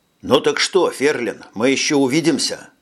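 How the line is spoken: Plain. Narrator (Russian): спросил Джек

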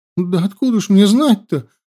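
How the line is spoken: Tearful exclamation. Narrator (Russian): плачущим голосом воскликнула Янди

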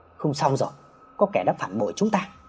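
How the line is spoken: Softly. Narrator (Vietnamese): Anh khẽ nói

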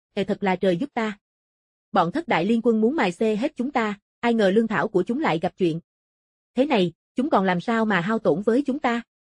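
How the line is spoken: Laughing loudly, weariness gone. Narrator (Vietnamese): vẻ mệt mỏi trên mặt Triệu Tử Diệp đột nhiên biến mất, ông cười lớn

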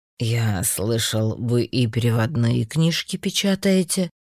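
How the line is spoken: Plain. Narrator (Russian): спросил Бланк

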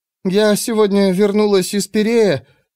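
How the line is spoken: Trembling voice. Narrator (Russian): сказала Пандора дрогнувшим голосом

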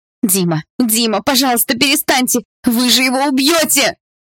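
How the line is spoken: Fearful shouting. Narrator (Russian): В страхе кричала Полина

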